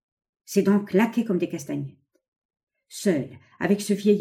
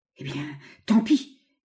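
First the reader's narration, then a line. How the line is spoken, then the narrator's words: Drenched sputtering stammer. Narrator (French): bégaya l'Américain qui venait d'être inondé par un paquet de mer des pieds à la tête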